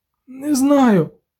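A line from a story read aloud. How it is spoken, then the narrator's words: Groaning. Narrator (Ukrainian): застогнав Любисток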